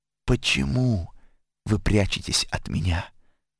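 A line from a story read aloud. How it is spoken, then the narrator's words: Tender question. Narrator (Russian): Он нежно спросил их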